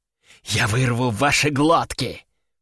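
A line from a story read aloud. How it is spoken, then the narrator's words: Demon hissing. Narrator (Russian): прошипела демоница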